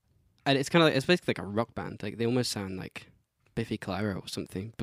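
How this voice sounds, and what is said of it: Scottish accent. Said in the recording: “your Scottish accent”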